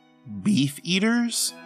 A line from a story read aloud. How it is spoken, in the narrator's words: Lionel shrieked